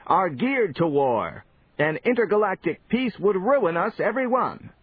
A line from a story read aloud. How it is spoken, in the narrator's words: another cried